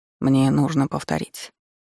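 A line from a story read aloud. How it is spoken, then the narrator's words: Soft question. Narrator (Russian): мягко спросил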